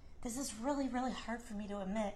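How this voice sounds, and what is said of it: Choked-up, emotional voice. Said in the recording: “I'm getting a little choked up.”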